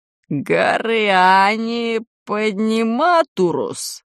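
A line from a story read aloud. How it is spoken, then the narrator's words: Gloomy question, head. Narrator (Russian): мрачно спросила голова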